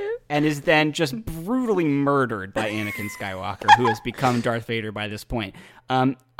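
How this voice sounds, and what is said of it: Usual voice. Nothing is said of it.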